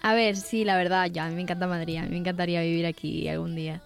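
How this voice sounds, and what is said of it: Canarian Spanish accent. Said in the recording (Spanish): “qué acento más bonito ... Ella es tinerfeña”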